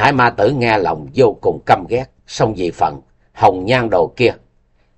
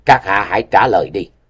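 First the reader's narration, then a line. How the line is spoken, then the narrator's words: Cold. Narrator (Vietnamese): Y Ức Bình lại lạnh lùng nói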